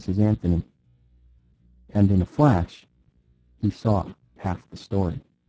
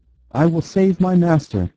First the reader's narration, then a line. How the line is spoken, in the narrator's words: he cried, his eyes blazing maniacally